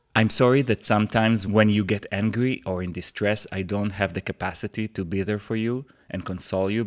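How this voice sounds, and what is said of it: Non-native English accent. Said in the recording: “my broken English with my flawed accent”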